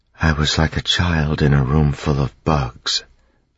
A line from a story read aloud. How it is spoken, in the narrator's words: Vin whispered